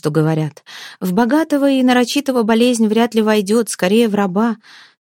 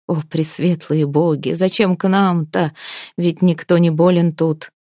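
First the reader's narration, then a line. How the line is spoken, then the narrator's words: Quiet crying. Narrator (Russian): тихонько плакала Ивка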